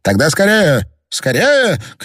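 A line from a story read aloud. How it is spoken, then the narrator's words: Urgent shout. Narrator (Russian): крикнул Пруг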